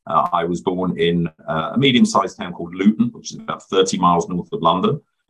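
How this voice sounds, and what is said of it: British English accent. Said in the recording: “You can probably tell by my accent, I'm originally from the United Kingdom.”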